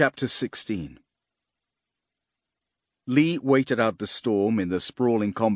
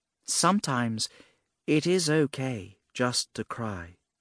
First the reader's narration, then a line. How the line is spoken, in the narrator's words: said gently